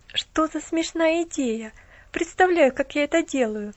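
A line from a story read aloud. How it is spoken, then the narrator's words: Laughing young woman. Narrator (Russian): засмеялась девушка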